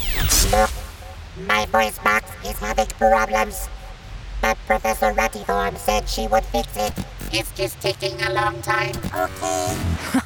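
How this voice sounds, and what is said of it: Squeaky little boy robot voice. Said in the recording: “You sound like a little boy robot. ... The big scary monster sounds like a squeaky toy.”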